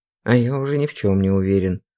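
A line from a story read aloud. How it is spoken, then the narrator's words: Gruff mutter. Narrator (Russian): буркнул Олег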